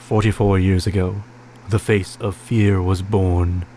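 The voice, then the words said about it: Dramatic movie trailer narrator voice. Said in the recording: “That was my horror movie trailer voice.”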